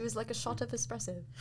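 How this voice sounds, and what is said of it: Put-on accent. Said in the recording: “Oh, that's really good. ... That was really good. ... I work on my accents.”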